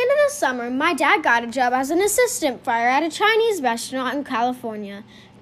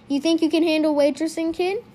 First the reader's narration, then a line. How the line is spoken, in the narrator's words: he asked me